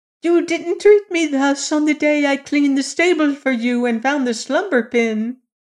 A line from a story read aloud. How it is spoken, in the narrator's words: the female pigeon shrieked